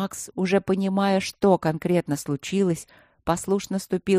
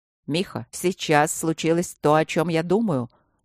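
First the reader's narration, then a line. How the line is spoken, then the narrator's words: Sharp question. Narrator (Russian): резко спросил Трот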